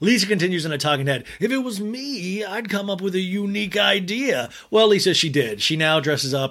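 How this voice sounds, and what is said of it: Usual voice. Nothing is said of it.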